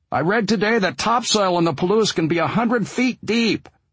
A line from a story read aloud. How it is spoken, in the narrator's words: I yelled over the engine and wind